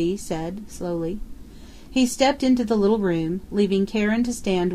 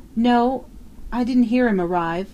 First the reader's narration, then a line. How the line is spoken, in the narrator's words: Flora Miles faltered